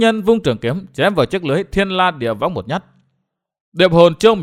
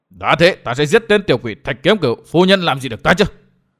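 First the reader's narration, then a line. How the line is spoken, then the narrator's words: Jealous shout. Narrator (Vietnamese): Tư Mã Xanh hơi nổi ghen quát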